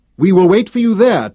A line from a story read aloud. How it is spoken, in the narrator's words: shouted after him